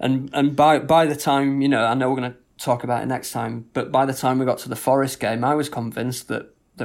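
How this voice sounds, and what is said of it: Usual voice. Nothing is said of it.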